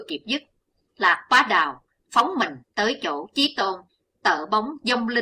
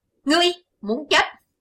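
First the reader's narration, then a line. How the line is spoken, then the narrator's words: Roaring shout. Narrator (Vietnamese): Liền theo tiếng gầm quát, Nam Tà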